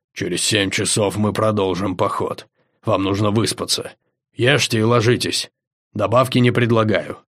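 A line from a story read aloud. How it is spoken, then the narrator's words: Growling. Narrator (Russian): Зарычав, он сказал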